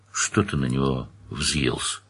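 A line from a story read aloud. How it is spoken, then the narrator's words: Quiet question. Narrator (Russian): тихо спросил Паш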